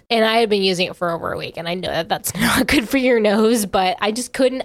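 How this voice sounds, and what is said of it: Nasal, congested voice. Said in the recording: “you can hear it in my voice, ... I still sound nasally. ... I was just so congested”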